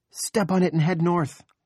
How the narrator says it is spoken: Pamela shouts

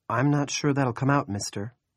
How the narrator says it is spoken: Claire sighed

